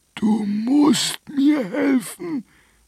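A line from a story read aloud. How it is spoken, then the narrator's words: Dragon hissing. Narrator (German): fauchte der Drache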